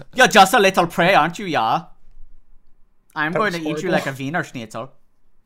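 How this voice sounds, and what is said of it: Put-on German accent. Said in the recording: “It has to be in, like, a German accent.”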